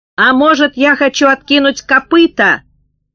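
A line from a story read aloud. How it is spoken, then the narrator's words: Shouting. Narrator (Russian): кричал Боря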